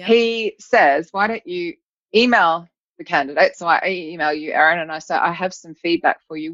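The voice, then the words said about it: Mixed Australian accent. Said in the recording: “from Australia, admittedly, which is actually where I'm from, if anyone's wondering about the confused accent”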